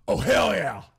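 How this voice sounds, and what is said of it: Loud intense shouted impression. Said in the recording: “Can I get a hell yeah me at work loud? ... That was an intense hell yeah. ... my best Stone Cold impression”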